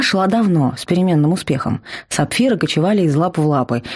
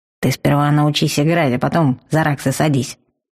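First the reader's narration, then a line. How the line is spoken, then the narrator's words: Grumbling player. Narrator (Russian): проворчал второй игрок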